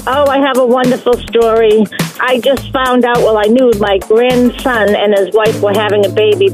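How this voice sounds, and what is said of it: Massachusetts accent. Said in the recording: “I'm from Massachusetts, so I say car. ... We love the accent.”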